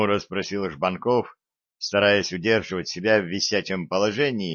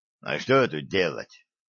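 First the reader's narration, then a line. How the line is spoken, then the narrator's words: Muttered. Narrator (Russian): буркнул Вавило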